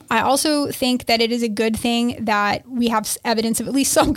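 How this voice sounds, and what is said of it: Usual voice. Nothing is said of it.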